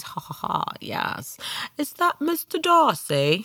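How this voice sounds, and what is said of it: Put-on old-fashioned English accent. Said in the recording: “old English literature movies and mimicking their accents. ... I'm afraid I'm a little bit out of practice”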